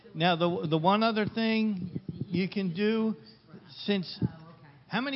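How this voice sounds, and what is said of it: Usual voice. Nothing is said of it.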